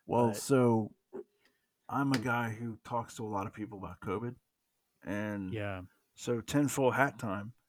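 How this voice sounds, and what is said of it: Southern accent. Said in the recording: “that was me with my southern accent.”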